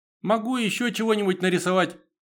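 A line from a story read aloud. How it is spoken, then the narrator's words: Squeaky voice. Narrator (Russian): пропищал я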